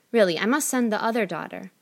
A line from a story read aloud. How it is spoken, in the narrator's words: said the mother